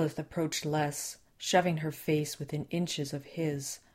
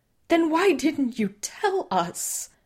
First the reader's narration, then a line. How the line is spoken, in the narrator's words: Les screamed in her face